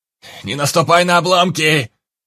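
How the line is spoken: Shout from behind. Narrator (Russian): крикнул идущий чуть позади Анджей

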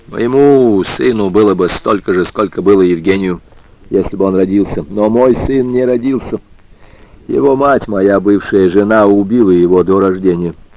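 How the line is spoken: Barking voice. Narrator (Russian): лающим голосом произнес

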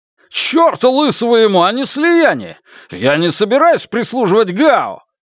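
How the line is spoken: Disbelieving roar. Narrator (Russian): взревел Янь Ли, не веря своим ушам

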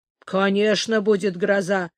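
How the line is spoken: Grumbling. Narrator (Russian): проворчал Бартия

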